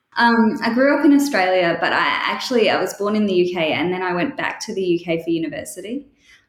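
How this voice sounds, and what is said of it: Australian accent. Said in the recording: “you can tell from my accent that I'm Australian”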